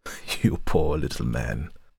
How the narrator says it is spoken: she laughed

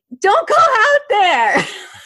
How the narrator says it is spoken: I'm yelling at them

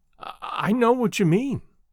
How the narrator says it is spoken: said the girl, unsteadily

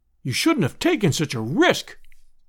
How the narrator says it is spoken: we all cried

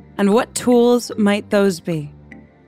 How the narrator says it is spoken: When Wu spoke, her voice never shook

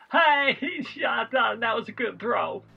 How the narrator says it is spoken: laughing and going

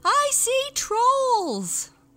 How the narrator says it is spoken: The human being screamed

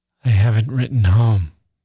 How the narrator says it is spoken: Gusev sighed

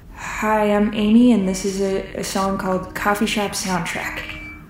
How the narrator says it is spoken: You mumble

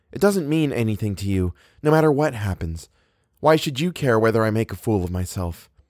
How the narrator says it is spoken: Eleanor said in a reasonable tone

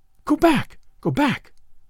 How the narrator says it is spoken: she cried

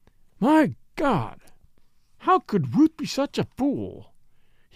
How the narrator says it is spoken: exclaimed bitterly

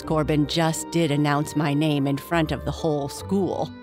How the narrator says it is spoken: Fuzzy said with a chuckle

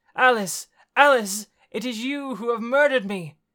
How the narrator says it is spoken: He cried out

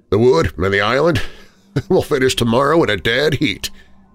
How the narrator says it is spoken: he laughed

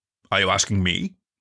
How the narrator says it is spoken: Hunter said

